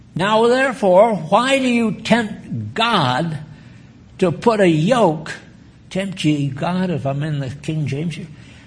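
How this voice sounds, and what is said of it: Yelling, loud preaching voice. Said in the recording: “I'm yelling.”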